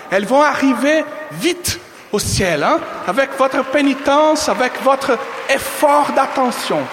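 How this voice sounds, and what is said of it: French with a Brazilian accent. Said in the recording (French): “mon accent français, brésilien français”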